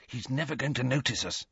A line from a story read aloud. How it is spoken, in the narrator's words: he whispered